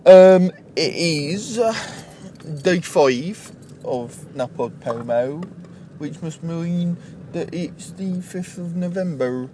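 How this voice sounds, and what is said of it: Bad put-on West Country accent. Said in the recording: “That was a really bad West Country accent.”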